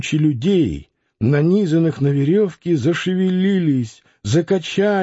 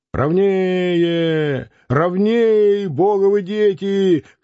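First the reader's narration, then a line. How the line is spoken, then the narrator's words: Chesty shout, excited, anxious. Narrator (Russian): кричал делатель пивных бутылок грудным голосом восторженно и тревожно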